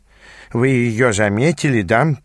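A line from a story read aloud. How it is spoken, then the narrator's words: Mumbling. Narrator (Russian): пробурчал он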